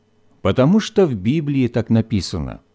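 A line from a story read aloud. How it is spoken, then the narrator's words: Calm mother explaining. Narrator (Russian): спокойно пояснила мама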